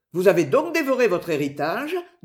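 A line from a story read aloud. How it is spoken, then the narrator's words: Laughing question. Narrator (French): demanda Robin en riant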